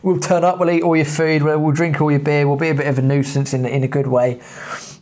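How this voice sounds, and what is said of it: English accent. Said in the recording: “the English accent can get you quite far, especially in America. The minute they find out you're from England”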